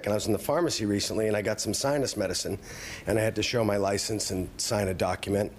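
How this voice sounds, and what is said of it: Voice sounds a little sick. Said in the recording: “as you can tell from my voice, I've been a little sick”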